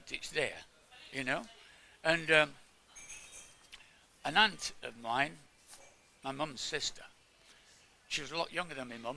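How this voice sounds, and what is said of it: Speaker's own regional accent. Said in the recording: “There's a certain accent, isn't there, like mine. ... I can't get rid of my accent.”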